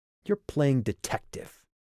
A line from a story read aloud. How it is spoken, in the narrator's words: Sandy sneered